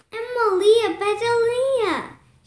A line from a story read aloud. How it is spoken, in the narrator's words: she shouted